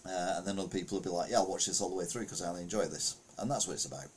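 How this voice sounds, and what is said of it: Northern English accent. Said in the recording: “a fat English man with a northern accent”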